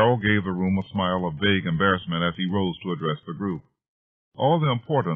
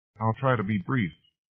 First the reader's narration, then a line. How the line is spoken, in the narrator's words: Carroll began softly